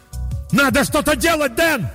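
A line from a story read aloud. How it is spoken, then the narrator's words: Yelling at full voice. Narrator (Russian): заорал я во весь голос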